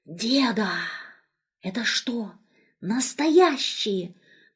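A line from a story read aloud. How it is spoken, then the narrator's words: Whisper. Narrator (Russian): прошептала она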